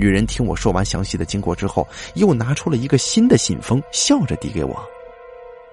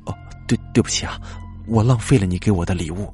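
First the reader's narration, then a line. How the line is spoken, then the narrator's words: Sighing. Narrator (Chinese): 我叹了口气说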